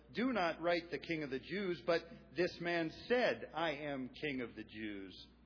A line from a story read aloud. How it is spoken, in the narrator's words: Pilate answered